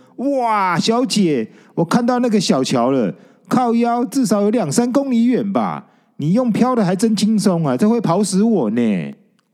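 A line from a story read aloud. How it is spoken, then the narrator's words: Wailing. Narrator (Chinese): 惨叫了一声，说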